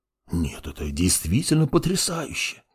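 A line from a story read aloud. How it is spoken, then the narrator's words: Awed whisper. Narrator (Russian): прошептал мертвый маг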